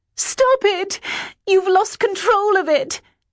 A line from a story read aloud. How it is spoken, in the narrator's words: I screamed, surely with all my strength